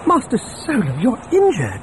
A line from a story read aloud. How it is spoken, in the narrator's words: C-3PO exclaimed on seeing dried blood on his hands and face